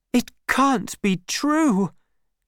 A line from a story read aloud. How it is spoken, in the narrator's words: cried, in shock